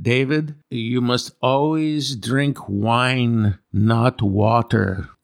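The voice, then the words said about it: Put-on Croatian accent. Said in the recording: “He's Croatian, by the way, and that's my best Croatian accent.”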